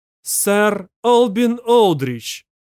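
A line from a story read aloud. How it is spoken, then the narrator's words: Loud formal announcement. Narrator (Russian): громко произнесла жнец Анастасия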